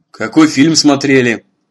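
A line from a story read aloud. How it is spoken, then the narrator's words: Dry question. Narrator (Russian): отец спросил сухо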